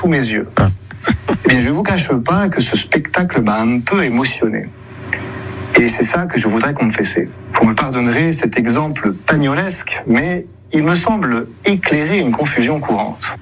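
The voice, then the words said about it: Weak, odd imitation of Marseille accent. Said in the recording (French): “On sent que ... essaie d'imiter l'accent marseillais, mais sans se lâcher totalement. Ça donne l'accent, avouons-le, très bizarre, une imitation pas trop réussi”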